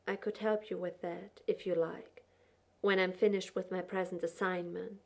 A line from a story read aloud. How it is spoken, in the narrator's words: said quietly